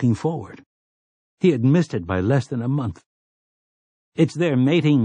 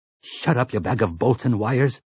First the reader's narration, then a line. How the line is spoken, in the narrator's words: Sleitman snarled